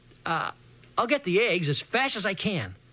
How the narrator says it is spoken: said quick-like and as cheerfully as I could

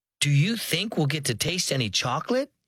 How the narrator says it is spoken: she asked eagerly

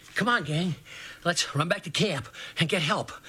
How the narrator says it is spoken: he came puffing up to us, he exclaimed

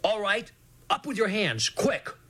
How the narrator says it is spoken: Big Jim yelled

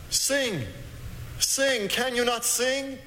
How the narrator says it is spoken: he cried

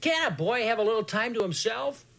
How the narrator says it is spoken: For a second, I was half mad, so I yelled back from way up in the air where I was at the time and said

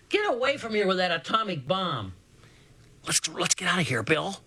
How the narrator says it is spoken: Portree let out a yell to Circa, saying

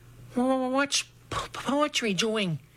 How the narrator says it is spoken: Dragonfly stammered

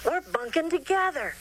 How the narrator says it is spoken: Charlie shouted

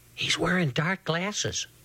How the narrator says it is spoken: Portree whispered to me

